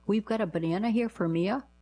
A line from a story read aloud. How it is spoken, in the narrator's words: the man running the shop called out in a very confused tone